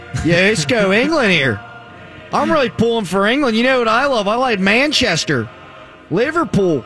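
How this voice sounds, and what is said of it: English accent attempt slipping into Pittsburgh. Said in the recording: “I can't do the accent now. Yinzer keeps sliding on in. ... Yenzer English super fan”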